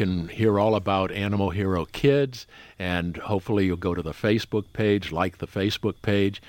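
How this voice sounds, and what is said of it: Usual voice. Nothing is said of it.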